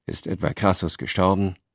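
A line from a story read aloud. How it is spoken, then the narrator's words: Tired question. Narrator (German): fragte Cicero müde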